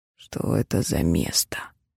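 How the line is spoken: Breathed out. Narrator (Russian): выдохнул Кроу

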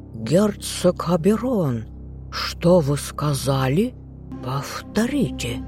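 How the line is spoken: Furious snake-like hiss. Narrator (Russian): зашипел змеем лорд Карлтон

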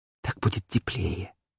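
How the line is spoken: Apologetic whisper. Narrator (Russian): словно извиняясь, прошептала

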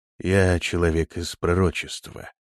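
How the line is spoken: Calm, firmly convinced. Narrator (Russian): ответил Прокс спокойно, но в его голосе звучала непоколебимая убежденность

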